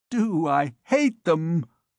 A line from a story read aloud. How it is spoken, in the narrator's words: exclaimed the recluse